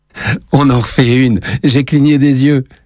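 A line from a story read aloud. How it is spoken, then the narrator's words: Exclaiming. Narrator (French): s'exclame Lenny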